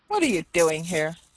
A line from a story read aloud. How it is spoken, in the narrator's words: said, rather angrily